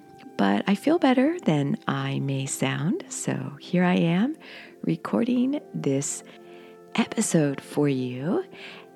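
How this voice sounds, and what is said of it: Slightly hoarse voice. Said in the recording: “my voice is a little hoarse. I've been under the weather a little bit this week, so you might hear that in my voice”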